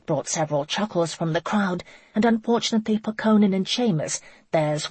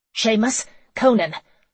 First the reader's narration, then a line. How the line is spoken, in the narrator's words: Laurel barked